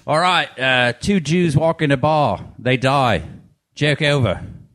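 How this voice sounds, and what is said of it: Put-on Australian accent. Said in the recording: “I got to get into my Australian accent ... It only works in that accent.”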